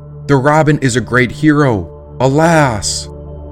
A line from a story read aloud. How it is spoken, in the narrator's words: a hog cried out